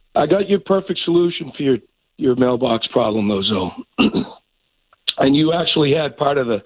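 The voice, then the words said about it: Sick, rough-sounding voice. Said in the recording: “I'm a little sick, so ... my voice is messed up.”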